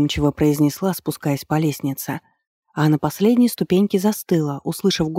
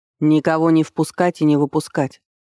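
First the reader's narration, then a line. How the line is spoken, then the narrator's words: Sharp shout. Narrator (Russian): прикрикнул он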